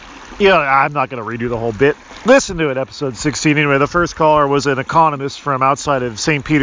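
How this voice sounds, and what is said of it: Usual voice. Nothing is said of it.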